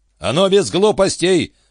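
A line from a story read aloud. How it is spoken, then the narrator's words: Yelling headmaster. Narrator (Russian): заорал Джон Эндерс, директор средней школы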